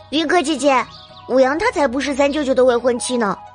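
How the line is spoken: Loud, puzzled shout. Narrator (Chinese): 莫瑶不明所以，扯着嗓子大声告诉云柯

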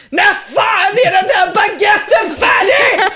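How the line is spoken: Sudden yell toward kitchen. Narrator (Swedish): Helt plötsligt, nästintill, skriker mot köket

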